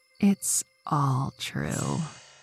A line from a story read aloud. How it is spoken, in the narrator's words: Beth whispered into his ear